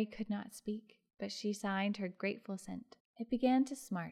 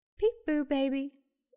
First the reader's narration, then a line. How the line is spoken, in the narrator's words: said, as merrily as she could